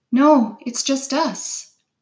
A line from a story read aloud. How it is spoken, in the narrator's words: I called out